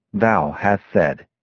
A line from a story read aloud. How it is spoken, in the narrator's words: Jesus solemnly replied